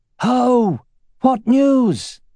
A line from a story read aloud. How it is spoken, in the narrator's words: Aragorn shouted